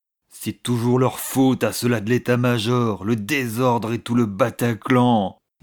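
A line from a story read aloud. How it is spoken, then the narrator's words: Grumbling. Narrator (French): grommela-t-il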